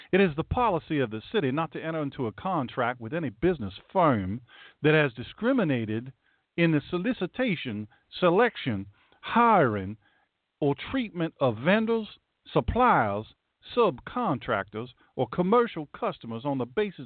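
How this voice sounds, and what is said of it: Put-on Southern US accent. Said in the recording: “You need to do this in a southern accent. ... let's see if I can do North Carolina.”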